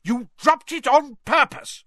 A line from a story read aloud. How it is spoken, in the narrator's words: roared Mr